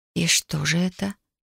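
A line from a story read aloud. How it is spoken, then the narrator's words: Quiet question. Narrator (Russian): спросила тихо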